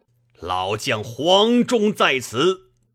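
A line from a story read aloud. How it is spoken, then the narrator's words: Fierce shout. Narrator (Chinese): 一员大将厉声大叫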